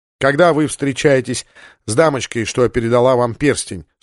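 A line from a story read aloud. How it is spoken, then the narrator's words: Plain. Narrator (Russian): спросил Сандерс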